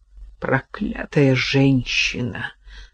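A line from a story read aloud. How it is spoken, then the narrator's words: Sighing. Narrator (Russian): вздохнула Кира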